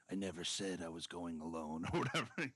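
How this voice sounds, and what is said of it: Deep gravelly Batman-style voice. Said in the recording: “doing my Batman voice”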